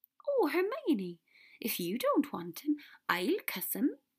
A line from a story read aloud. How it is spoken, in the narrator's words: Luna said happily